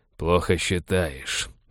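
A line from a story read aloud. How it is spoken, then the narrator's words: Through gritted teeth. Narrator (Russian): процедил Балфер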